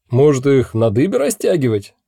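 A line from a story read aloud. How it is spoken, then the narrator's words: Big man suggesting. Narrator (Russian): предлагал здоровяк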